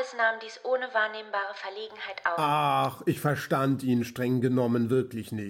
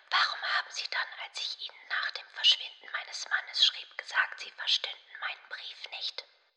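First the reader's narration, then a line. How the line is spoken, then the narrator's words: Faint strained whisper. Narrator (German): begann kaum fähig, ihrer Stimme mehr als ein Flüstern abzubringen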